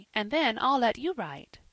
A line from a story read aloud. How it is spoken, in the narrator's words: said his mother, eagerly